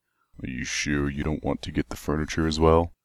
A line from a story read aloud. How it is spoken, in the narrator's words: Calamity grunted